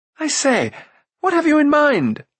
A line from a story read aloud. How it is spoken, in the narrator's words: cried Roon